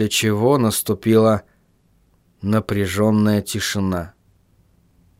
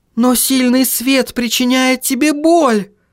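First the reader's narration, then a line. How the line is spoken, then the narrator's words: Exclaiming. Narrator (Russian): воскликнула Сахариса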